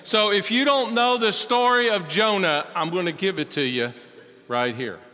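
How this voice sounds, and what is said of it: Kentucky accent. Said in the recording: “a white guy from Kentucky with an accent”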